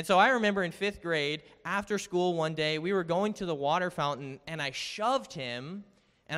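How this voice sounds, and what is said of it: Usual voice. Nothing is said of it.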